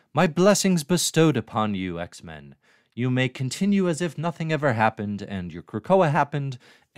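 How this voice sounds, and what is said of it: Put-on accent. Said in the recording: “why am I doing that accent?”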